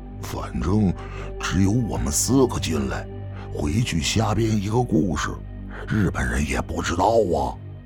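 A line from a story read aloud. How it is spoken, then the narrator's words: Low voice. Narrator (Chinese): 庆宇低声地说道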